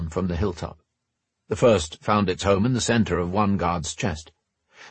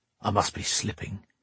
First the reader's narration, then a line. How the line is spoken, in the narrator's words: he muttered